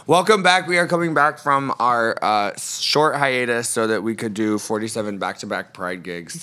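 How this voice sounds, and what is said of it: Husky, worn-out voice. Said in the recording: “my voice has truly been through it. ... It's a little husky, but like in a sexy way.”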